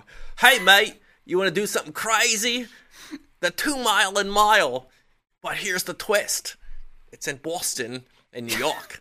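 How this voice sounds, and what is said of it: Bad put-on Australian accent. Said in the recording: “I'm gonna use my Australian accent right now ... was so bad”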